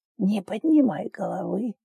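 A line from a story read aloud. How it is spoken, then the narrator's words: Old man's distant whisper. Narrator (Russian): шепот старика, будто издалека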